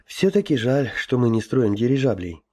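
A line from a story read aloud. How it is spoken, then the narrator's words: Sighing. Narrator (Russian): вздохнул Гоша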